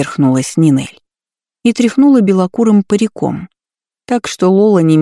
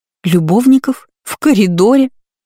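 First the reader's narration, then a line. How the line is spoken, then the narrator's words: Laughing loudly. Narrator (Russian): Лола расхохоталась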